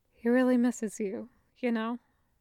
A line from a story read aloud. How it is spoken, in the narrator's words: she said quietly